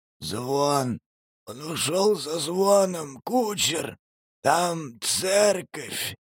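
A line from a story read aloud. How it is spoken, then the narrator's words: Wheezing hoarsely. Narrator (Russian): хрипел Демид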